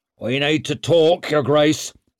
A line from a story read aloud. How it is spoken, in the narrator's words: snarled Mustard